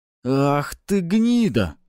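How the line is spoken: Young man exclaiming. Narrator (Russian): воскликнул другой парень

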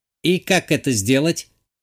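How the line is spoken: Snide computer-assistant question. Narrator (Russian): ехидно уточнил компьютерный помощник

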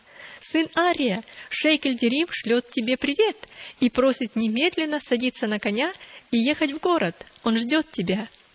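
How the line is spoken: Cheerful voice. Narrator (Russian): он сказал веселым голосом

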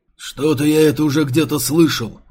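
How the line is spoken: Booming drone. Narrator (Russian): прогудел Детина

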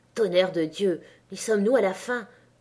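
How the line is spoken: Exhausted, breathless growl. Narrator (French): gronda-t'il les reins cassés hors d'haleine

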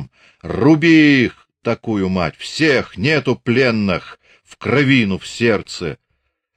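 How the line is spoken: Exhausted barking shout. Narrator (Russian): закричал выдохшимся лающим голосом

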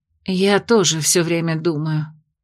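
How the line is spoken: Sigh. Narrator (Russian): вздохнула травница

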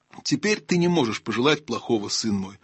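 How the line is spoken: Plain. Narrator (Russian): сказал Аслан

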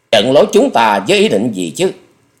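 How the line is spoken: Fierce harsh voice. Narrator (Vietnamese): mắt bắn hung quang, mím môi gầy gắt nói

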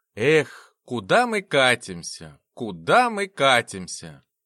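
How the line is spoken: Sad sigh. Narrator (Russian): Доктор печально вздохнул

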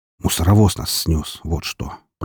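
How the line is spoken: Muttered. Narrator (Russian): пробормотал

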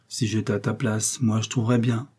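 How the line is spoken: Murmured. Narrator (French): murmurait

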